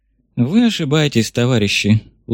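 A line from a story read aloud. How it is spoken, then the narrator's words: Tired sigh, old man. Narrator (Russian): устало вздохнул старый большевик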